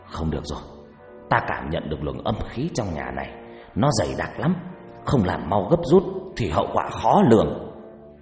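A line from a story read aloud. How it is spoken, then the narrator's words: Stern harsh voice. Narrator (Vietnamese): ông trừng mắt gằn giọng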